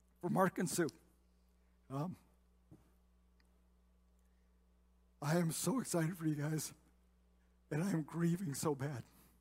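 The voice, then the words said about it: Choked-up, emotional voice. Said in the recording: “I'm going to get all choked up.”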